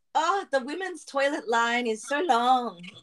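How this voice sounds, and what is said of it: Badly done put-on accent. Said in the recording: “That was a really bad accent.”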